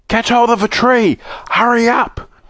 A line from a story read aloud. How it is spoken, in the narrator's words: he shouted to the others